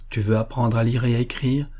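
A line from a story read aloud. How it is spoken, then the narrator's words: Completely calm voice. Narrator (French): dit d'une voix complètement calme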